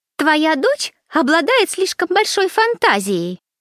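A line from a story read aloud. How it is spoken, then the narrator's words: Shrill retort. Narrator (Russian): визгливо бросила в ответ Беатрича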